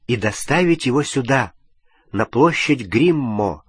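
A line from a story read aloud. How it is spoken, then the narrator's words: Plain. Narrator (Russian): сказал Гарри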